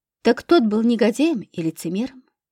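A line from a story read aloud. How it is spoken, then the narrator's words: Calm explanation. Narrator (Russian): спокойно пояснил Пилипчук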